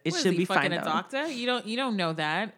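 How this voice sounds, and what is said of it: New York accent. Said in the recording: “did you just hear my New York accent?”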